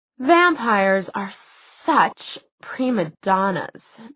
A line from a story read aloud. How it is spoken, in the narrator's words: Magnus sighed